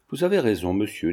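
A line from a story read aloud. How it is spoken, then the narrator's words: Plain. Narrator (French): dit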